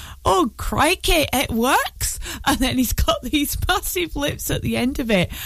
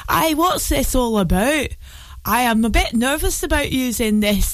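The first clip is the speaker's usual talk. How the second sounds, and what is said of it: Bad put-on Glaswegian accent. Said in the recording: “There's my terrible Glaswegian accent”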